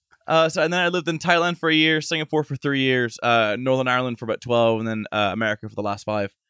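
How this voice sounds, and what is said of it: Hard-to-place mixed accent. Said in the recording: “my accent sounds like shit ... it's called otherworldly in the voiceover industry ... you can't place where the accent is”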